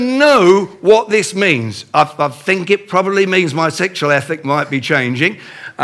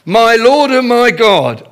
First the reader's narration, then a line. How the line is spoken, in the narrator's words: there was something in me that just cried out